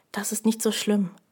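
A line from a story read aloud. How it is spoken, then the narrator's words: Quiet. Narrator (German): sagte er leise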